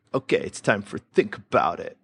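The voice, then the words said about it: Pretty good put-on American accent. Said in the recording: “That was a pretty good American accent. I got to say, that was one of the better ones ever done.”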